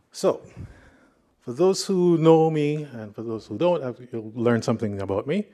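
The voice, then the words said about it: Jamaican accent. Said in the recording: “what's that accent? It's because I'm from Jamaica.”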